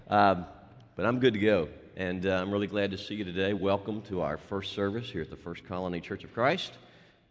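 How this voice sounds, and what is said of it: Voice sounds unwell, rough. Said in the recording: “I sound awful,”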